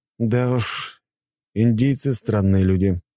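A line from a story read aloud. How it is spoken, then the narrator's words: Remark with a sigh. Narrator (Russian): подметил я и вздохнул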